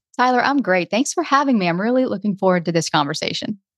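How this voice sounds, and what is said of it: Noticeable accent, different speaking pace. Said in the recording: “Your accent is awesome, by the way. ... It sounds great. It's nice to have a little bit different pace.”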